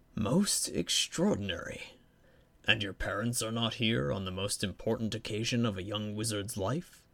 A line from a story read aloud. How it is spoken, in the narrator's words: his voice lowered